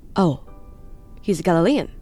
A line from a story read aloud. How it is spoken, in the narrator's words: Pilate asked